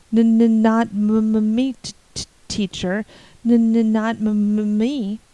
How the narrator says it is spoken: Joe Sloane stuttered out wildly

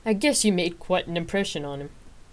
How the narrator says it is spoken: he chuckled

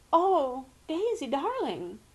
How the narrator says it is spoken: quavered Aunt Celia

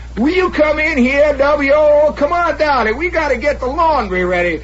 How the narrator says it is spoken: does she keep hollering

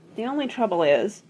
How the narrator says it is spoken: said the director wearily

